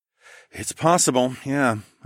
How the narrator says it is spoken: I sighed

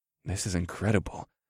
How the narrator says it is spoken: breathed

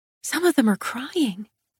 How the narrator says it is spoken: I whispered

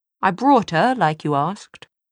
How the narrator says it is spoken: He forced his face into a smile and said in a passably cheerful tone

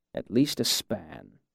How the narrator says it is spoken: he muttered

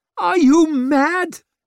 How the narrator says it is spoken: shrieked Savine

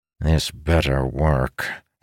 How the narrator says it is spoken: grumbled to himself

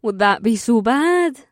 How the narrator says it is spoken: Amber giggled again

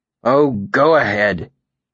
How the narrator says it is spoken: the old tracker said bitterly

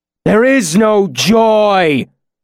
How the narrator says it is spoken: Lanre shouted in an awful voice

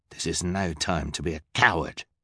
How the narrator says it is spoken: the hook-handed man growled

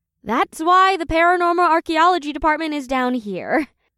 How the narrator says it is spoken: Janine sighed

